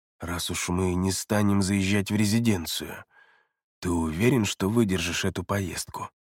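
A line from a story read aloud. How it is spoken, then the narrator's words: Quiet inquiry. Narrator (Russian): Тихо осведомился Эриас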